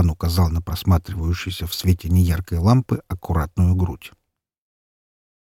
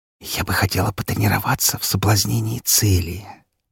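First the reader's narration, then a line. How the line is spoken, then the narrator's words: Whispering. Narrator (Russian): прошептала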